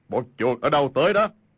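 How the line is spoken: Big man's loud bark. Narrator (Vietnamese): một người thân thể cao lớn, y quát lớn

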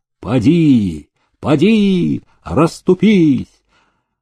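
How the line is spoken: Loud ringing shout. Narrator (Russian): голосисто кричал форейтер

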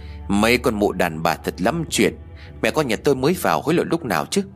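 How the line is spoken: Sighing inner thought. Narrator (Vietnamese): Tôi liền thở dài nhủ thầm

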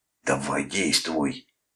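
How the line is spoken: Hoarse whisper. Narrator (Russian): Хрипло прошептал он Клоду

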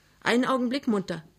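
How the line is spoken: Calling out. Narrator (German): rief Emma Mörschel

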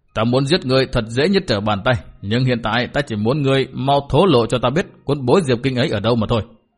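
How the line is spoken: Sneering. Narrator (Vietnamese): Hỏa Thần giáo chủ cười khẩy nói

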